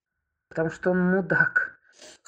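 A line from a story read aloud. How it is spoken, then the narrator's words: Scoffing grunt. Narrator (Russian): хмыкнул Юра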